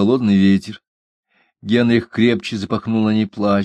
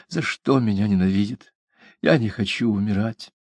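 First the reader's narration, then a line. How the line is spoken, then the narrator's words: Muffled plaintive whisper. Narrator (Russian): Сквозь плотную ткань, которая глушила ее голос, она жалобно шептала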